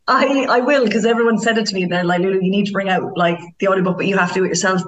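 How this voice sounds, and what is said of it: Irish Cork accent. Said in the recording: “your Cork accent”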